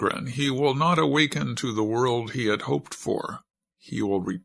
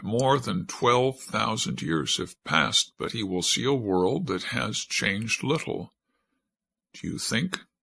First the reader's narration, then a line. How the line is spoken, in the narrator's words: Stenafi paused for a moment, and her voice caught